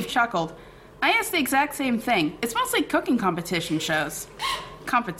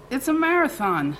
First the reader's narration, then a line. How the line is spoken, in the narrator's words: slurred Tony, and Tony's slurring was a sure sign this had gotten way out of control